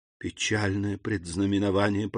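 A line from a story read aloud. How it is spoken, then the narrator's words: Whispered. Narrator (Russian): прошептала Рене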